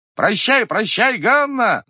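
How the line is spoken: Several young men shouting. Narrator (Russian): закричало несколько парубков

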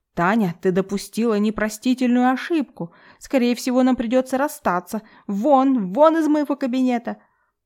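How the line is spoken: Notary shouting. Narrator (Russian): Прокричал нотариус

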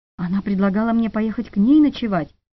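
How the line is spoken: Whispering. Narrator (Russian): прошептала

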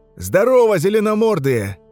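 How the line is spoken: Yelling. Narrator (Russian): заорал Чекан

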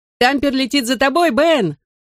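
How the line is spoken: Shout. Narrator (Russian): крикнул ему я

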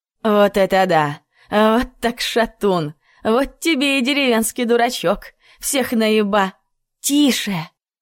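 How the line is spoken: Frightened hiss. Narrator (Russian): зашипела Надка, испуганно оглядываясь

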